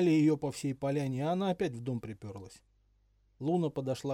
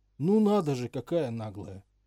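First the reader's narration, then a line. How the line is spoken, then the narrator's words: Shocked elder werewolf, loud exhale. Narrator (Russian): Старший из оборотней шумно выдохнул и потрясенно сказал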